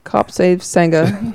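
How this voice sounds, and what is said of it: Put-on UK accent. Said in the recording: “She would have said in a UK accent.”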